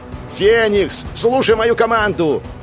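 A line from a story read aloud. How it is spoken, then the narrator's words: Yelling through loudspeakers. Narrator (Russian): заорал я, включив динамики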